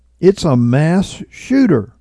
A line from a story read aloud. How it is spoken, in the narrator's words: Someone else cried out